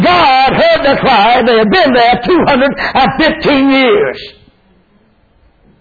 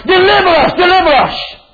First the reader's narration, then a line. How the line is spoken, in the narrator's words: they prayed unto God, they cried unto God